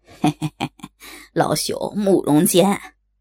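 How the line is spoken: Old man's dry laugh. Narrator (Chinese): 老者干笑道

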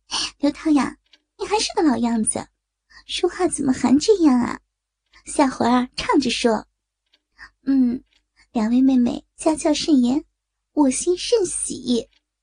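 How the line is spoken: Laughing. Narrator (Chinese): 王慧笑道

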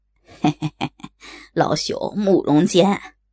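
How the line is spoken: Old man, dry laugh. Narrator (Chinese): 老者干笑道

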